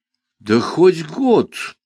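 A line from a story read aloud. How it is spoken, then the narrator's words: Sighing boss. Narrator (Russian): вздохнул мой шеф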